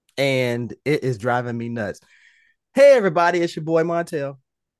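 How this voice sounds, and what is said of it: Raspy voice. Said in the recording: “You can hear the rasp in my voice. ... I have been recovering from being sick.”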